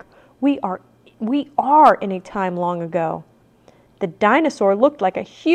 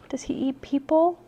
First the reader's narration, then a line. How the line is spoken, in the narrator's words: whispered Annie